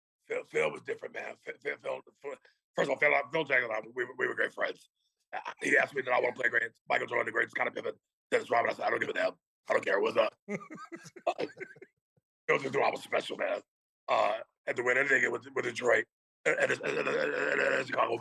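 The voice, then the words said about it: Imitates another person's voice. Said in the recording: “as Dennis Rodman ... I don't know if my voice is up to par right now”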